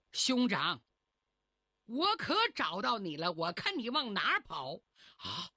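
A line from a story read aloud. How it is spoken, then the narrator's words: Hearty laughter. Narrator (Chinese): 来人哈哈大笑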